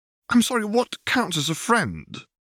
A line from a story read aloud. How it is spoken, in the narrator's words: retorted hotly